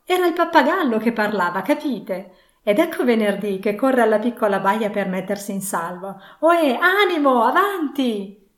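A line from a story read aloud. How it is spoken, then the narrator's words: Sudden pitying exclamation. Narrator (Italian): con un'insolita rapidità di transizione, esclamò compiangendo l'altro se stesso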